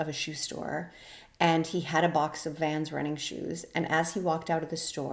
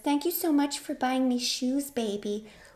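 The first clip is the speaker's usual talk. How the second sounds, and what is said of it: Mocking baby voice. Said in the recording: “she used a baby voice. I hate the baby voice. She used the baby voice”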